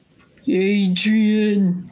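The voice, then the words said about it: Bad Rocky impression. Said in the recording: “my Rocky impression ... It's terrible.”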